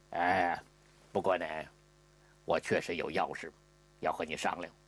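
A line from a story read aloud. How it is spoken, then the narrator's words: Low voice. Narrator (Chinese): 压低了声音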